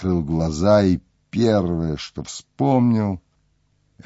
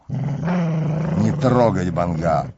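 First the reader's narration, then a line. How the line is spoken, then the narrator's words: Sickly voice, coughing. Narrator (Russian): сказал больным голосом и кашлянул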